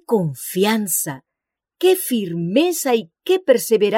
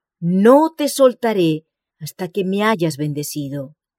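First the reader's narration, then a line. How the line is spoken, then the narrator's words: Exclaimed. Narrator (Spanish): el patriarca exclama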